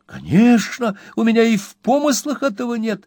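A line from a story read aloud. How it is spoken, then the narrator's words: Exclaimed fervently. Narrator (Russian): с жаром воскликнул мистер Уинкли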